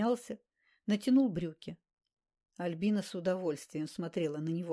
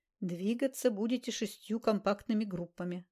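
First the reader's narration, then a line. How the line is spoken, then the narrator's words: Plain. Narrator (Russian): сказал полковник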